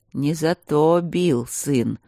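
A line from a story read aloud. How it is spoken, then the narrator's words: Low human voice. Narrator (Russian): сказал уже низким человеческим голосом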